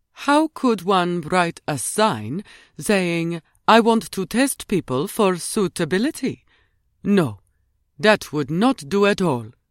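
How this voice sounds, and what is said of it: Mimicked soft foreign accent. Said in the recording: “Ruby tried to mimic Madame's soft accent.”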